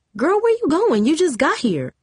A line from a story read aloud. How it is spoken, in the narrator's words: Monique exclaimed